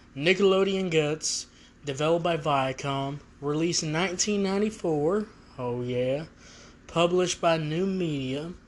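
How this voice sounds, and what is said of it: Sore, strained voice. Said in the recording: “my voice is a little hurting today”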